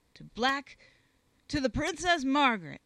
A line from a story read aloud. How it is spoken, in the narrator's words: he bellowed